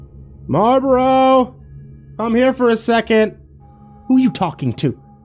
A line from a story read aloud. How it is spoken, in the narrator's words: He sighed deeply and yelled out